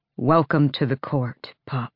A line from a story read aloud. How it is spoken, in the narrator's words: he said, his voice thick